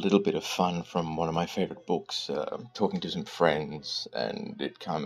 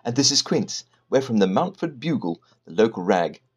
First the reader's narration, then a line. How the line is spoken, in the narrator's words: the woman said, too brightly